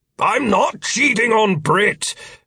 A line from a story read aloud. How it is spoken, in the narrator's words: Philip shouted